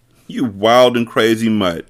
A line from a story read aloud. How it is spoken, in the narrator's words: laughed